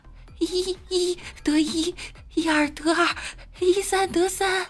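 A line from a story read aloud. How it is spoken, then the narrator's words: Loud chanting. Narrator (Chinese): 小徒弟大声念道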